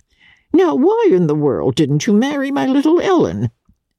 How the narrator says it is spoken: Archer laughed

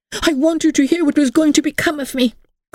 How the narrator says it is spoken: cried Emily

